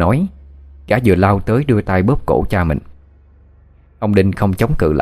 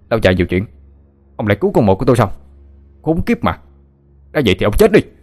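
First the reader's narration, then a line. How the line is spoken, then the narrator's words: Furious shout through teeth. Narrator (Vietnamese): nghiến răng căm giận, mồm quát lên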